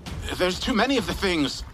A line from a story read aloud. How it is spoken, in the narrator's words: I yelled over the sound of gunfire